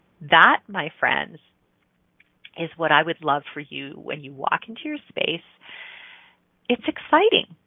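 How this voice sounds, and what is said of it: Smiling, warm voice. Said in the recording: “you can hear the smile in my voice.”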